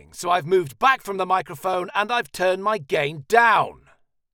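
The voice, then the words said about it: Shouting. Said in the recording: “This time I'm shouting,”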